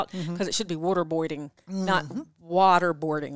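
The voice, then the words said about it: East Coast American accent. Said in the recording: “My East Coast accent comes out”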